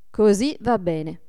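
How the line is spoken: Plain. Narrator (Italian): disse Adolfo

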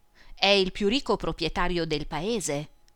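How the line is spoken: Plain. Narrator (Italian): rispose Alberto

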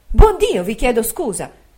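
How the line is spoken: Mother's heartfelt exclamation. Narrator (Italian): col naturale sentimento d'una madre, ho esclamato

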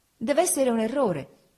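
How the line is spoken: Exclaimed. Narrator (Italian): esclamai

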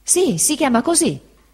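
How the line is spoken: Fisherman exclaiming. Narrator (Italian): esclamò il pescatore Peggotty

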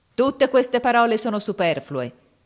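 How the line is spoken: Shouted. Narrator (Italian): gridò

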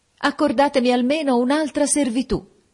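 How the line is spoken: Desperate shout. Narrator (Italian): quasi disperata, gridai

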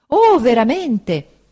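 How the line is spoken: Exclaiming. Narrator (Italian): esclamò Uriah

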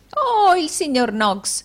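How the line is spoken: Exclaiming. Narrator (Italian): esclamò Arturo Gride

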